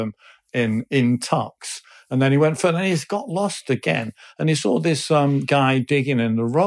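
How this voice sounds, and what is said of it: Usual voice. Nothing is said of it.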